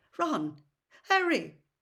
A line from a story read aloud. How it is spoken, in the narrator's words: His voice sounded shaky